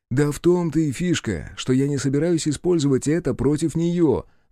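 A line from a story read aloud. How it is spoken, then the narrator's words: Exclaiming. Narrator (Russian): воскликнул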